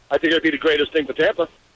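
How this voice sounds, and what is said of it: New York accent. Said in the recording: “Time to lose that accent”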